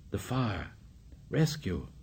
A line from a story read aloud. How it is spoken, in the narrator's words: Piggy whispered